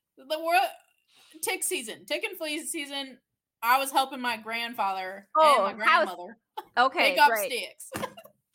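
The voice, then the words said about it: Put-on Southern US accent. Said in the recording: “I went to a southern accent because that's funny to me. ... Southern Sage.”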